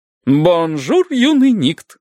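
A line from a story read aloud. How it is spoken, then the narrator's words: Exclaiming. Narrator (Russian): воскликнул поэт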